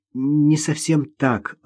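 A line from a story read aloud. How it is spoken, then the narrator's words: Timid. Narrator (Russian): робко начала Ирина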